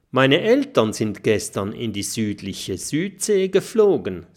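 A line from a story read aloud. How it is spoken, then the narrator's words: Plain. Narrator (German): sagt Kokosnuss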